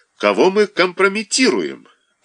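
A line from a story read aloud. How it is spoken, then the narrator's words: Snapping retort. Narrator (Russian): огрызнулся Павел Семенович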